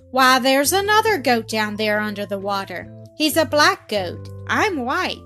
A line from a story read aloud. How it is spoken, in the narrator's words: he exclaimed to himself